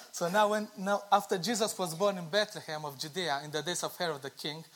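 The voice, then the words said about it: Speaks with a noticeable accent. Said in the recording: “listen carefully to my accent”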